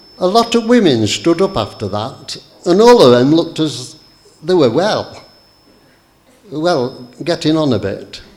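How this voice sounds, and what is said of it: Imitated Barnsley Yorkshire accent. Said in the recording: “forgive my imitated Barnsley accent”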